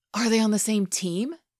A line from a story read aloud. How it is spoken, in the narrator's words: Kip gasped